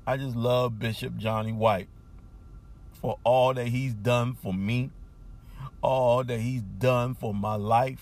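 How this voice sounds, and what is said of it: Emotional, choked-up speech. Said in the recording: “I'm getting emotional”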